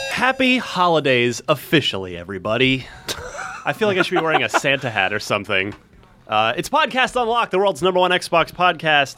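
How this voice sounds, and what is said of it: Radio announcer voice. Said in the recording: “You did your like radio announcer voice.”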